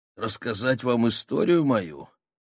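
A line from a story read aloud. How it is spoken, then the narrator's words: Hoarse, husky voice. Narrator (Russian): спросил он меня сиповатым голосом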